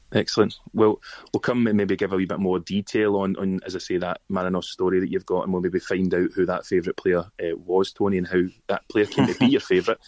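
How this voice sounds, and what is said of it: Scottish Glasgow accent. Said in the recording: “for those who haven't picked up by my accent, ... I'm in Glasgow in Scotland”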